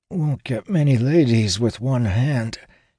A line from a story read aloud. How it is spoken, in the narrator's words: says through gritted teeth